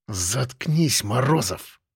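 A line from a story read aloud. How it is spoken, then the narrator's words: Hissed. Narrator (Russian): прошипел Трубецкой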